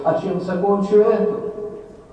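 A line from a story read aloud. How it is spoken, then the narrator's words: Desperate shout. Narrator (Russian): Я закричал в отчаянии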